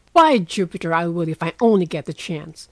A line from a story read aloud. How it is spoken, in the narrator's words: cried Laurie, sitting up with sudden energy